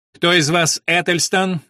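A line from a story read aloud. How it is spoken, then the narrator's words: Interrupting shout. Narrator (Russian): недослушав, выкрикнул Уильям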